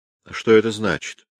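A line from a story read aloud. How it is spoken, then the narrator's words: Plain question. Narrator (Russian): спросил его Бирен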